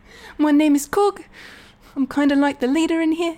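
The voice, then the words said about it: High-pitched New Zealand Korg voice. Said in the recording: “Korg this, like, high-pitched New Zealand accent”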